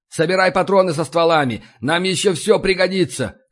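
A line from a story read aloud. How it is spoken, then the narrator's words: Shout. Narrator (Russian): крикнул я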